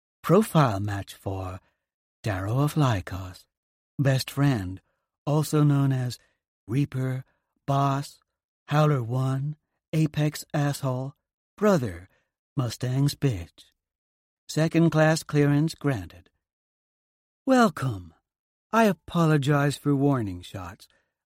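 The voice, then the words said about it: Sexy voice. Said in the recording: “a sexy voice says”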